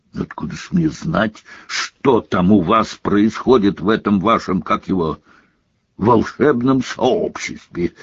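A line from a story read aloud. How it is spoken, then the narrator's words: Irritable snapping retort. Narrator (Russian): огрызнулся премьер-министр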